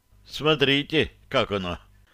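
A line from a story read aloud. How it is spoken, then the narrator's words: Sigh. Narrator (Russian): вздохнул Остапий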